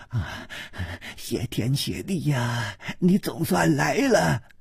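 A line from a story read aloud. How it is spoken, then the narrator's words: Breathless, panting. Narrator (Chinese): 他喘息着说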